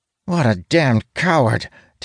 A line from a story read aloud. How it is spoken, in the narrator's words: Talon blurts out